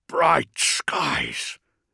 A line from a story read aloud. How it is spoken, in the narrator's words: Makarion murmured